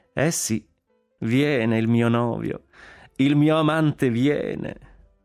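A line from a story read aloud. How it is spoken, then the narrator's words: Laughing. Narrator (Italian): disse Consuelo ridendo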